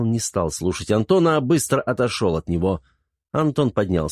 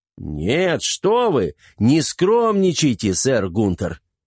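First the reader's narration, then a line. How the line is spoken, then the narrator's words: Exclamation. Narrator (Russian): воскликнул Антон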